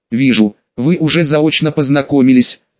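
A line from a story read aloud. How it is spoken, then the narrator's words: Snorting. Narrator (Russian): хмыкнул Отто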